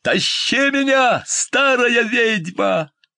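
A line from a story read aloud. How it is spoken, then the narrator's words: Shout. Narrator (Russian): закричал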